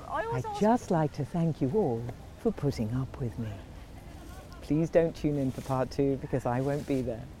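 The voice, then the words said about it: Put-on voiceover announcer voice. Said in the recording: “I could record that in my voiceover voice”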